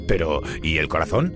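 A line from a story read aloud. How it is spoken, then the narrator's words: Stammering. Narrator (Spanish): balbuceó Maui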